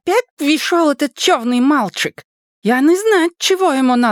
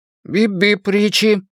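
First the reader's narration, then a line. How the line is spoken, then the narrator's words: Interrupting, mouth full. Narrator (Russian): оборвал его Бен с набитым твинки-ртом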